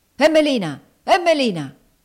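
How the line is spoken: Harsh shout. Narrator (Italian): gridò aspramente

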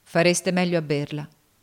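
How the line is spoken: Plain. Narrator (Italian): rispose Cassie

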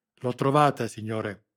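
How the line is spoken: Exclaimed. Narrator (Italian): esclamò l'agente

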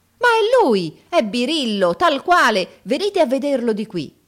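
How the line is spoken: Admiring crowd shout. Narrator (Italian): un grande urlo d'ammirazione salì alle stelle

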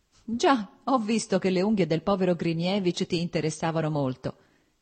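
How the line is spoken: Laughing. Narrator (Italian): disse ridendo Stepan Arkadich

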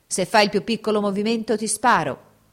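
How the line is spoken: Shouted. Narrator (Italian): gridò Fabrizio

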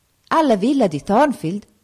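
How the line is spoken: Pastor's exclamation. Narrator (Italian): esclamò il pastore

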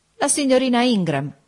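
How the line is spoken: Widow exclaiming. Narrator (Italian): esclamò la vedova

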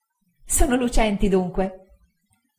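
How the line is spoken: Laughing reply. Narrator (Italian): rispose Dora ridendo

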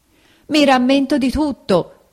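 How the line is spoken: Shouted. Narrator (Italian): gridò Pinocchio

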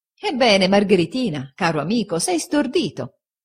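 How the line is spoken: Laughing exclamation. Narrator (Italian): esclamò Steerforth ridendo

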